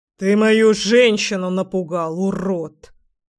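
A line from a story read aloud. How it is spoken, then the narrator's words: Menacing, through teeth. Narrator (Russian): процедил парень грозно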